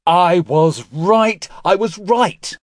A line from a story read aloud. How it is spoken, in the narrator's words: he shouted at the sky